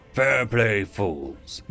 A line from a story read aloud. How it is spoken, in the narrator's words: the Royal Knight sighed as he left the pub reeking of enough alcohol to disinfect a wound